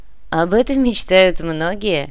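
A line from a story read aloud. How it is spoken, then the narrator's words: Laughing. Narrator (Russian): рассмеялся комиссар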